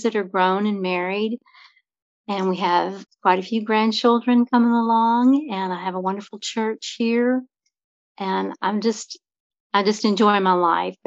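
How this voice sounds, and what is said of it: Southern American accent. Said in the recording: “enjoying listening to ... voice ... As soon as I hear a Southern accent”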